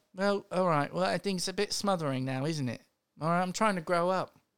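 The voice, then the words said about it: Put-on British Cockney-tinged accent. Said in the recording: “I feel like it's gotten a little bit more British ... it gave me a little more Cockney, maybe”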